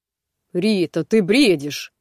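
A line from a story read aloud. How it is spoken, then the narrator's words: Uncertain muttering. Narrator (Russian): неуверенно бормотал Рома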